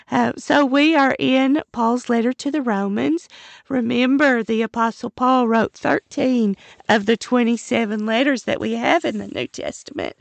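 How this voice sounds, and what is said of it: Hoarse, failing voice. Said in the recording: “my voice is going. I've had this late winter crud, but it's getting better.”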